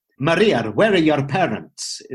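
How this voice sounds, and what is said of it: Bad put-on Scottish accent. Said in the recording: “I did it slightly Scottish ... which was sort of a bad Scottish accent”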